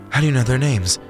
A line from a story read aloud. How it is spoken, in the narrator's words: January gasped